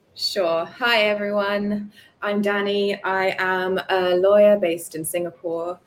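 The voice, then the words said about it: Accent not typical of Singapore. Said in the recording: “I've grown up in Singapore, been here my whole life pretty much, although you wouldn't know it from the accent.”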